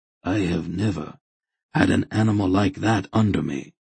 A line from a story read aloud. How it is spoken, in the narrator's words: Hetar said quietly